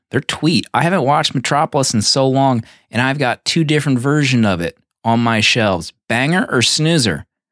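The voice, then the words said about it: Slight put-on southern twang. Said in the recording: “Is that a little southern twang?”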